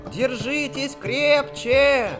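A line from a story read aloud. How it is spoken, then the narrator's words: Shout. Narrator (Russian): крикнул мумитролль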